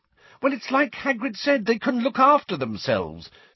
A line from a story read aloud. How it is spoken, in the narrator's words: said Hermione impatiently